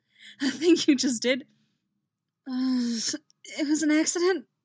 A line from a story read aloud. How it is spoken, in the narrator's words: Reggie says, groaning